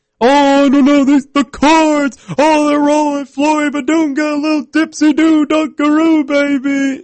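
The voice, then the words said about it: Dick Vitale impression. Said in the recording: “call the game in a Dick Vitale accent”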